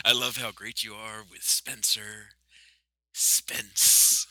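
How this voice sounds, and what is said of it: Jack Nicholson impression. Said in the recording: “you could do a Jack Nicholson proper impression”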